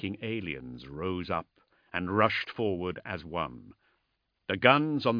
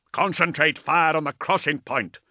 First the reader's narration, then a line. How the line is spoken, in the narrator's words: Ordermail bellowed over the whistle of shells and explosions